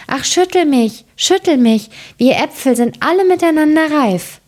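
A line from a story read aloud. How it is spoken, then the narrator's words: Apple tree calling out. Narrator (German): dem Apfelbaum, der rief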